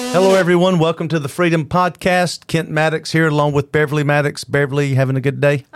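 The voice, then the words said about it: Loud radio announcer voice. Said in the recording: “your radio announcer voice ... he's loud”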